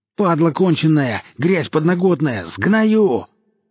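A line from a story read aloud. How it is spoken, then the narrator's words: Furious wide-mouthed yelling. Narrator (Russian): орал он в переговорное устройство, так широко разевая рот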